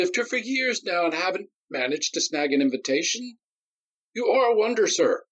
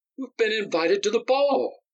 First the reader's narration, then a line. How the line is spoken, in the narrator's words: Myron stammered